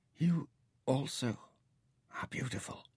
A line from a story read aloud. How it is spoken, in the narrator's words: she whispered